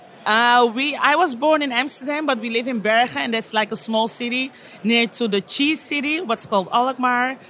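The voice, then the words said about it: Dutch accent. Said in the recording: “I feel like I detected a Dutch accent there.”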